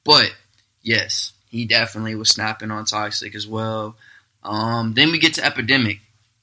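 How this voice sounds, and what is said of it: Monotone, slightly off, stuffy voice. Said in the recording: “I'm kind of monotone. ... I sound a little wild right now. ... my allergies have been all over the place.”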